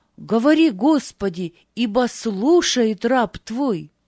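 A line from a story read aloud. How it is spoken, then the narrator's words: Loud. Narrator (Russian): сказал Самуил громко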